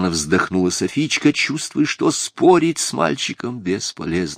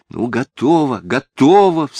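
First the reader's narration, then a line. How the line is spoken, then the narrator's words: Sharp cry. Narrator (Russian): вскрикнула Софичка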